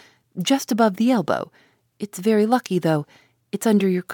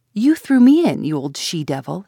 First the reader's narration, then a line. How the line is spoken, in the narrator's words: he exclaimed fiercely